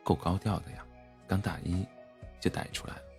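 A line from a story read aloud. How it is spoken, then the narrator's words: Low, pouting. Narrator (Chinese): 闺蜜努着嘴，低声说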